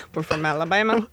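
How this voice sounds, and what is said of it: Put-on Southern US accent. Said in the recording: “the Southern draw ... this accent is just modeled off of her wife swap video”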